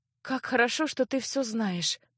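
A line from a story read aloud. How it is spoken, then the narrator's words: Thoughtful sigh. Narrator (Russian): рассудительно вздохнула девушка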